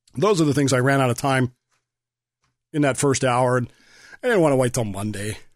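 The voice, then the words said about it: Strained, fading hoarse voice. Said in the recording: “losing my voice.”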